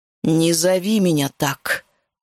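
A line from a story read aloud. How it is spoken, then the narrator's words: Growling. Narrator (Russian): прорычала я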